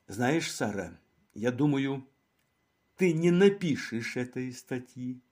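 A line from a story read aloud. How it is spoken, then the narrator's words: Plain. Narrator (Russian): сказала она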